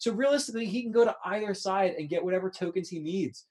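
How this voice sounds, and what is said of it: Usual voice. Nothing is said of it.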